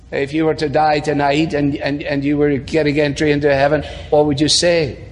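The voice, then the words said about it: Scottish accent, grave tone. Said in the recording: “He's Scottish and has an awesome, you know, that brings a little gravitas as it is with the accent.”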